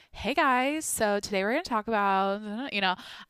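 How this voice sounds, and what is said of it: Girly internet influencer voice. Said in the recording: “I would be like doing the script that every chick on the internet does ... Everyone's doing that voice.”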